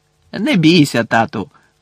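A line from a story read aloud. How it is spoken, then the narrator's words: Cheerful. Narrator (Ukrainian): весело сказав Фред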